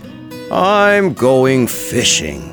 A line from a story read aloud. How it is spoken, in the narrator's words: said he in his deep, grumbly-rumbly voice